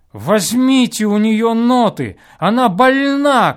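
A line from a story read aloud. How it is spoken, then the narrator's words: Shouted. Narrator (Russian): крикнул наконец он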